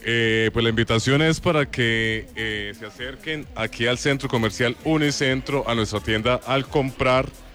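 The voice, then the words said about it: Announcer-style radio voice. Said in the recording (Spanish): “voz de locutor”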